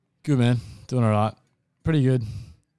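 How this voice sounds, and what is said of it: Flat, low, downbeat voice. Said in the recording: “you sound depressed,”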